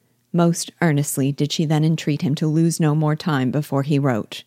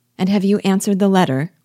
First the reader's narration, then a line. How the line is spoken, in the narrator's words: cried Elizabeth